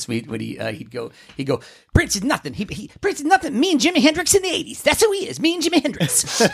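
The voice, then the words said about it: Bad impression of another person's voice. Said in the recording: “Eddie Murphy used to do that impression of Little Richard ... that's a bad Little Richard”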